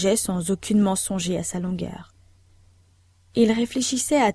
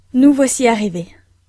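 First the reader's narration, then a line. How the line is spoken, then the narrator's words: Old man exclaiming. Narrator (French): s'écria le vieux mineur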